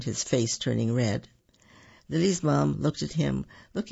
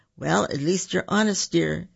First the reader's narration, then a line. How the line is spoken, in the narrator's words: she said, stifling a laugh